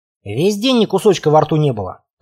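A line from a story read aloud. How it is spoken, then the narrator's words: Grumbling. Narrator (Russian): пробурчал он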